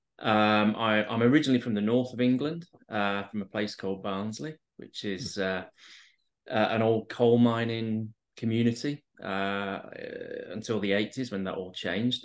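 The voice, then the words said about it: English accent. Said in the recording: “as you can probably tell from my accent, out in the UK, in England.”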